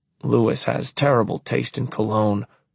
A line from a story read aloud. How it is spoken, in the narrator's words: I mutter